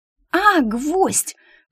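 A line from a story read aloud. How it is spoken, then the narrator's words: Indignant yell. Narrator (Russian): возмущенно заорал Стриж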